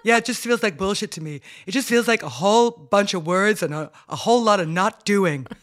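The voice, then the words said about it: Imitated accent of a young man. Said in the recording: “I love I love you doing his accent.”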